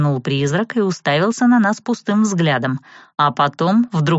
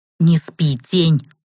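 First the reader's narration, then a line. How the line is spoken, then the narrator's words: Growling elf. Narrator (Russian): рыкнул эльф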